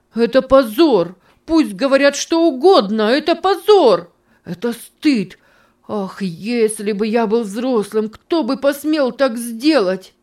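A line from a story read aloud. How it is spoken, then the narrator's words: Shouting, holding back sobs. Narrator (Russian): кричал он со сдержанным рыданием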